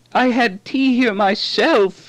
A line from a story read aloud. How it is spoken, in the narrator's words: she moaned